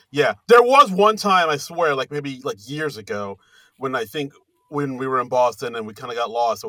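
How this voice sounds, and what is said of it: Usual voice. Nothing is said of it.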